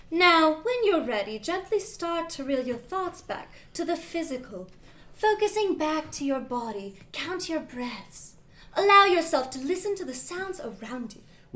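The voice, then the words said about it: Slight soothing English accent. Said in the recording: “Her slight English accent is considered very soothing”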